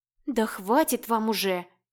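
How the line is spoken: Pleading. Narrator (Russian): взмолилась я

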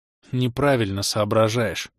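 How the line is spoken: Sullen snort, younger one. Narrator (Russian): хмуро фыркнул младший

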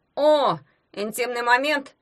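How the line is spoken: Grumbled. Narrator (Russian): пробурчал ягун

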